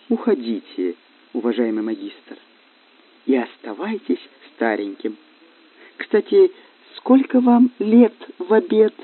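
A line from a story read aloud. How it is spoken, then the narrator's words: Calm quiet speech. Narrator (Russian): Элина Веленовна спокойно тихо сказала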